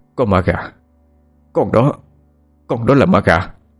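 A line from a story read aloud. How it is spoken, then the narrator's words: Stammering speech. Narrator (Vietnamese): bố cái bích tỉnh táo nhất thì chỉ lắp bắp nói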